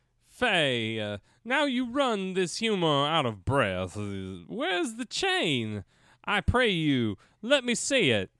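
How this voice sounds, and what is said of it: Put-on vaguely southern accent. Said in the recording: “I don't know where this accent's from. It's a little bit walking, a little bit from the south.”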